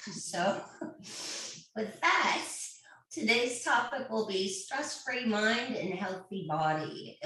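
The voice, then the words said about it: Crackly voice. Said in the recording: “my voice is a little crackly today. Allergies”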